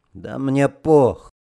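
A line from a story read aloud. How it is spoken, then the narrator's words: Sullen grumble. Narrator (Russian): Угрюмо буркнул Арестов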